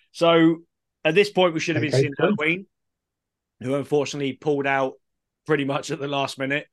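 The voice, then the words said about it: Croaky, strained voice. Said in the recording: “my voice is starting to get really croaky”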